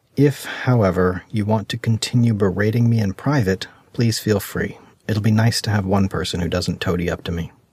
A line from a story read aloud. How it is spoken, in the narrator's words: Dizzy sighed and said